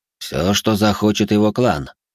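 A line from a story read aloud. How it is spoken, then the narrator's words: Gloomy. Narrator (Russian): мрачно ответил Гуанюй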